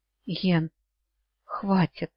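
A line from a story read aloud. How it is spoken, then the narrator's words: Slightly husky, anxious voice. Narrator (Russian): коснулся чуть хрипловатый взволнованный голосок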